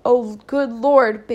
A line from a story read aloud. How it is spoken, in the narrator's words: Big Mama exclaimed